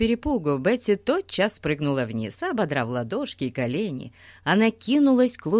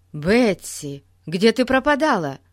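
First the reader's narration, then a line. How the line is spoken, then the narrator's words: Exclamation. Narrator (Russian): воскликнул Пип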